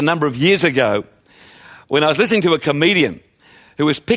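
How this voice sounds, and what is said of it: Usual voice. Nothing is said of it.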